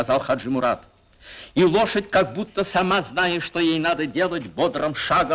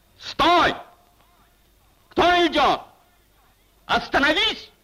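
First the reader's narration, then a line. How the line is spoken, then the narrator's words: Shouted challenge. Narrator (Russian): крикнул голос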